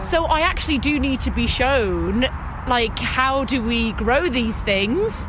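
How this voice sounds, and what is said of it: London accent. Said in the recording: “as you can tell by my accent, I grew up in London City.”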